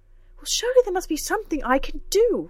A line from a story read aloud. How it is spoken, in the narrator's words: cried